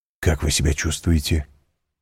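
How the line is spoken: Quick whispered question. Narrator (Russian): быстро спросил он шепотом

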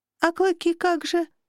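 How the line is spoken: Almost plaintive, torn, afraid. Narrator (Russian): почти жалобно спросила я, разрываясь между разочарованием и страхом

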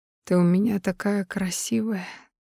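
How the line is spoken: Delirious mumble. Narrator (Russian): Словно в бреду бормочет он

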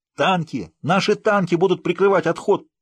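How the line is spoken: Shouted. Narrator (Russian): прокричал Отто

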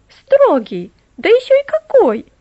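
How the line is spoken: Exclaim. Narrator (Russian): воскликнула Мэри

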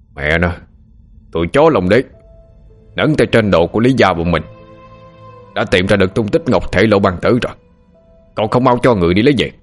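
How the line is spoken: Loud booming voice. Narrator (Vietnamese): một người oang oang

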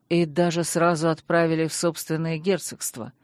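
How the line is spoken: Grim, through teeth. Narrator (Russian): мрачно процедил Кэрден

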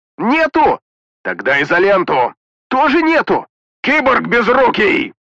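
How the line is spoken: Yelling. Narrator (Russian): заорал Петрович

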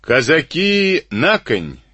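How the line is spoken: Shouted. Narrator (Russian): крикнул урядник

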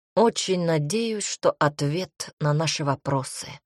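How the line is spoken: Tired reply. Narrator (Russian): устало ответил джарганец

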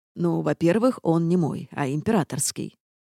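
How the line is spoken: Patient, condescending tone. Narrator (Russian): начал герцог таким терпеливым тоном, словно пояснял младенцу общеизвестные истины

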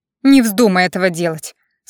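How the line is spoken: Through gritted teeth. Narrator (Russian): сквозь зубы процедила девушка

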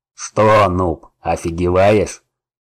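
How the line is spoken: Growl from behind. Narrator (Russian): прорычал кто-то сзади

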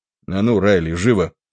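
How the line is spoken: Dry, curt. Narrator (Russian): сухо проговорил Додсон

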